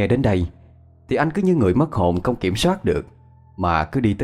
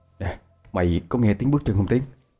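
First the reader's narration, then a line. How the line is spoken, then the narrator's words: Soft low voice. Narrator (Vietnamese): Phong khẽ giọng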